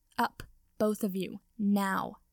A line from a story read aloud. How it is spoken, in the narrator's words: she said sharply, with an uncharacteristically annoyed expression on her face